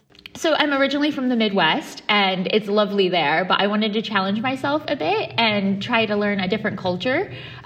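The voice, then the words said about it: American Midwestern accent. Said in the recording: “you've got a lovely accent there, but it's got a more of a hint of Illinois rather than Islington”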